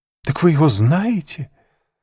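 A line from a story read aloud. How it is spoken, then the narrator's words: Joyful exclamation. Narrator (Russian): воскликнула Жюли, заблестевшими от радости глазами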